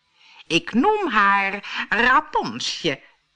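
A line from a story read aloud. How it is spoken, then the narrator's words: Speech with nasty laugh. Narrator (Dutch): zei en lachte heel gemeen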